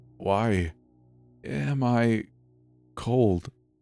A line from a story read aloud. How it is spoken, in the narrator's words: Noah mumbled